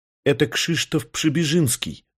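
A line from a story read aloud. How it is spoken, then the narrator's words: Plain. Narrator (Russian): сказала Марта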